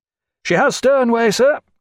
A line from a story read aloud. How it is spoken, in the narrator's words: cried Watt